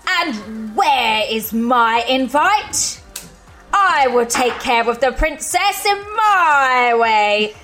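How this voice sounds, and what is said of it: Witch character voice. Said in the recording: “put on a witch voice”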